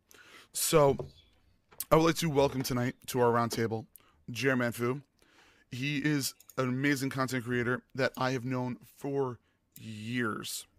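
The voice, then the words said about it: Losing voice, hoarse. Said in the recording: “now my voice is gone”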